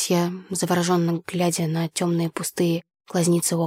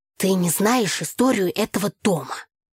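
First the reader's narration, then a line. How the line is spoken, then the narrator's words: Frightening whisper. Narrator (Russian): страшным шепотом проговорила Таня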